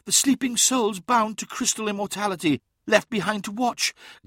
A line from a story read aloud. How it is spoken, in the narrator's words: gasped Uthisar